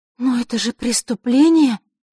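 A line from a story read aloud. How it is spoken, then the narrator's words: Breathless exhale. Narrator (Russian): выдохнула Василиса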